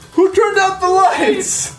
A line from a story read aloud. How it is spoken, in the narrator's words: You hear the rabbi yell